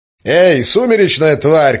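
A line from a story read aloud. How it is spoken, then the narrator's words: Shouting. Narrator (Russian): крикнул мужчина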